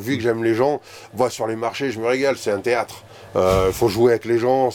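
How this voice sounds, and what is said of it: Slight southern French accent. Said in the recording (French): “vu l'accent que vous avez... il fait un peu sud quand même... Ouais, quand même un peu.”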